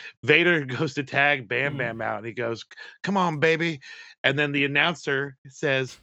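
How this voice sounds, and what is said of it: Usual voice. Nothing is said of it.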